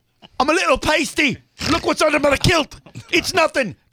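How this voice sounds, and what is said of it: Put-on Scottish brogue. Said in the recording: “Truth, Scottish, brogue. Probably not how he speaks.”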